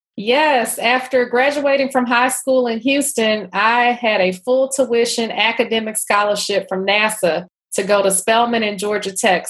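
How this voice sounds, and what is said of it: Texan Houston accent. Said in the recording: “I hear this lovely accent of yours ... that's not a D.C. or Atlanta accent. That's beautiful accent ... I'm originally from Houston, Texas ... this is my Beyonce accent”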